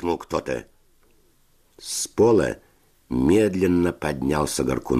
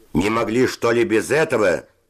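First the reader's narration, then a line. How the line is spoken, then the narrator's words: Shouting. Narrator (Russian): закричал Севочка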